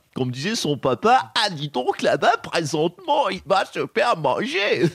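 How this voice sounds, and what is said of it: Imitates another person's voice, put-on accent. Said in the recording (French): “Oh là, l'accent... j'imite Michel Leb”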